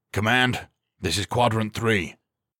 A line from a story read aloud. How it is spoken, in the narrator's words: Culver barked into his radio